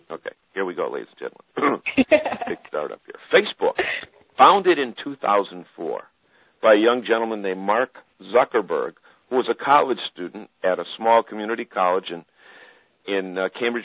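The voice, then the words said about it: Radio announcer on-air voice. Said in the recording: “I'll put on my advertising, my radio voice, my on-air voice”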